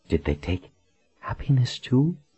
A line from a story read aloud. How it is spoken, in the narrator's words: Colin whispered